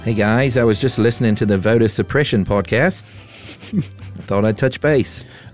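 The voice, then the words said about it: Put-on Australian accent. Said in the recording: “Is that from like a Wallabies Corner accent? ... It's a good one.”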